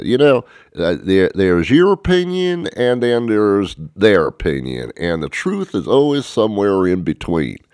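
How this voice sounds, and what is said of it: Dr. Phil impression, his accent. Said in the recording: “Dr. Phil actually said in his accent ... That's my Dr. Phil.”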